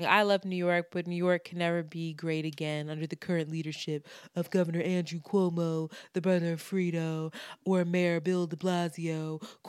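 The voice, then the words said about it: Imitates another person's voice. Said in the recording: “That's a really good impersonation”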